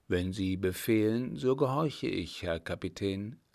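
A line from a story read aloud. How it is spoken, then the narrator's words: Plain. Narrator (German): antwortete Müller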